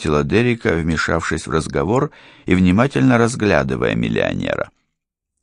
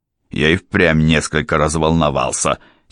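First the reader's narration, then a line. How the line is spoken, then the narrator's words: Angry. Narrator (Russian): сердито проговорил он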